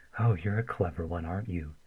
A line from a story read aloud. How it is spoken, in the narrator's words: Daniil breathed